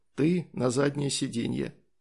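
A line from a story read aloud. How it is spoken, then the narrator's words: Whispered. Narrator (Russian): прошептал Санек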